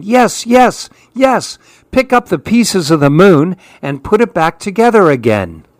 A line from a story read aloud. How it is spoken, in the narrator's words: All the other monkeys started yelling